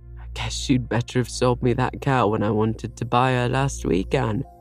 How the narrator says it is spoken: chuckled Mr

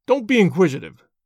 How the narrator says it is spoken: snapped the old man

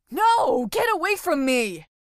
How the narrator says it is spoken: yelled the frightened boy as he tried to pull away

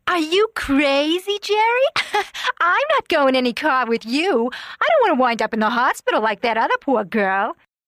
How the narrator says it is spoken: one of the girls laughing and saying

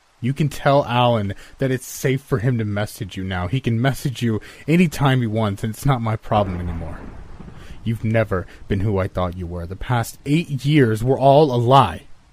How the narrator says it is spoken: I loom over her and shout

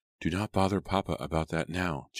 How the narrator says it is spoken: Jane whispered

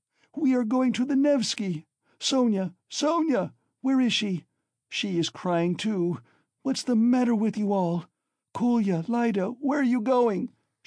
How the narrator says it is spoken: she cried suddenly in alarm

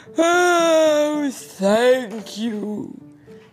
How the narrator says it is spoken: she said with a sigh

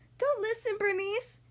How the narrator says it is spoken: Sophie cried

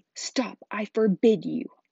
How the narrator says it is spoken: yelled Uncle Vernon in panic

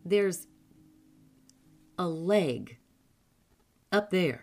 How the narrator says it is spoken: said crossly

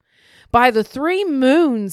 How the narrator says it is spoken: he sputtered, spewing out the mouthful of broth in outrage

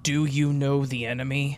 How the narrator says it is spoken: he growled, his voice gravel

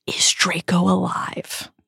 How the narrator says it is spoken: she whispers

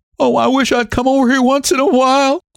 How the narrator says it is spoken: she cried

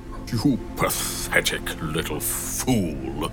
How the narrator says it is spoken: the shadow hissed

